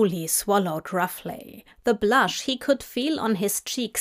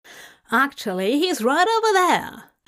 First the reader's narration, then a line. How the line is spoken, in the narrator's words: Anathema said brightly